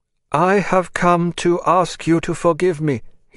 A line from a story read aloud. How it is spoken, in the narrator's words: he said, in a loud but monotonous voice, like a lesson learnt by heart